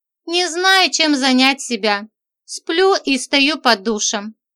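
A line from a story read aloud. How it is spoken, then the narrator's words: Calm, controlled voice. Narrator (Russian): говорила я спокойно, следя за своим голосом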